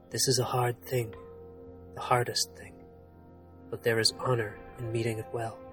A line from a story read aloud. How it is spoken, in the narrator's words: His voice still low, the knight said